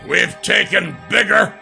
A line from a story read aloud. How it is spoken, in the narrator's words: Brenwar growled